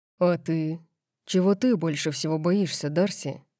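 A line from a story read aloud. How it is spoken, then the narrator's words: Deadly purr. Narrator (Russian): Его голос был убийственным мурлыканьем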